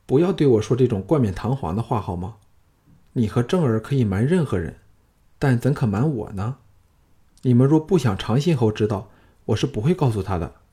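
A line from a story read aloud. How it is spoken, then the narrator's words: Wistful sigh. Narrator (Chinese): 朱姬悠悠一叹，说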